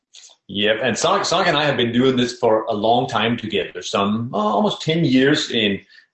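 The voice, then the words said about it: Danish accent. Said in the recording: “is a transplant from Denmark. ... In case you're wondering about the accent later.”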